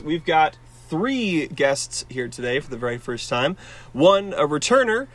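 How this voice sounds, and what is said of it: Sick-sounding, affected voice. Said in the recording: “I have COVID, so forgive my voice.”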